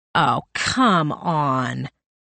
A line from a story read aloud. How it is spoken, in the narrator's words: Greg groaned